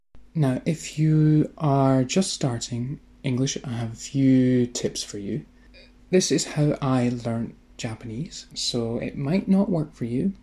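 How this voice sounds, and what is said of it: Scottish accent. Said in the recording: “especially mine. I'm from Scotland, and so Scotland is a difficult accent”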